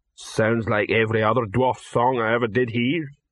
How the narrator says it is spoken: rumbled the troll

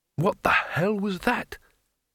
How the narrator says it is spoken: painfully, and whispered

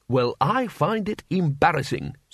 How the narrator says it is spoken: said the dean

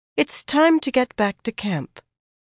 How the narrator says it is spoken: Egwene said, calmly

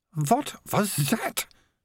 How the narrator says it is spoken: hissed

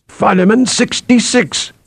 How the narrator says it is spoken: Athor cried

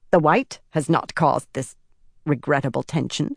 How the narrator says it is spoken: Miyasi said with a little snort

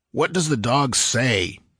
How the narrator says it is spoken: demanded Valbroso impatiently

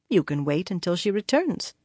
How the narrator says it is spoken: said calmly

